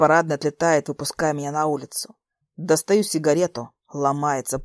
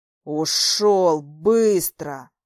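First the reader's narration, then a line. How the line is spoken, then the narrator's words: Through gritted teeth. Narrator (Russian): Сквозь зубы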